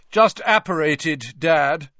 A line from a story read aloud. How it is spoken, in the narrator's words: said Percy loudly